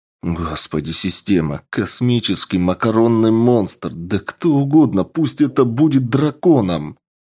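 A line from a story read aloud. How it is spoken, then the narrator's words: Pleading man. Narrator (Russian): Взмолился мужчина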